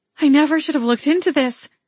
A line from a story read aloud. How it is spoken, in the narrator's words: I cried out